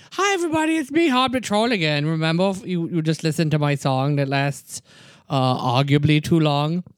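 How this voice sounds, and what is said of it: Funny troll character voice. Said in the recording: “it's just a funny voice”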